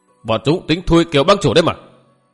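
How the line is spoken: Snapping irritably. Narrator (Vietnamese): Kiêu Tử cáo gắt

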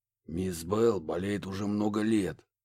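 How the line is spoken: Loud whisper. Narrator (Russian): громким шепотом поделился О'Салливан

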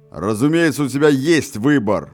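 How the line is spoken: Sudden barked in changed voice. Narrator (Russian): вдруг изменившимся голосом рявкнул

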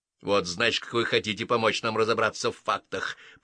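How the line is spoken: Grumbling. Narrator (Russian): проворчал сержант

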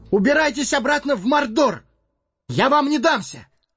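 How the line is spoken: Strained exhausted shout. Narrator (Russian): Собрав последние силы, хоббит крикнул

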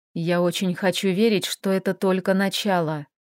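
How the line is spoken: Quiet. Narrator (Russian): тихо добавил он

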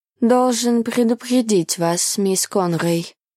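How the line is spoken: Gloomy. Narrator (Russian): мрачно сказал Люсьен

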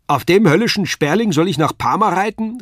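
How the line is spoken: Calling out. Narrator (German): rief er

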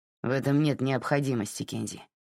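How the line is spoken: Grumbling. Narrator (Russian): проворчал Тед

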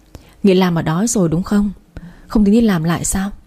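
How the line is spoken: Sighing question. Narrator (Vietnamese): thở dài rồi hỏi

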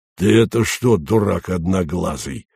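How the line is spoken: Hoarse wheeze. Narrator (Russian): просипел

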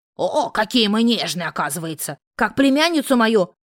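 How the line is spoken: Roaring. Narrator (Russian): взревела тетушка

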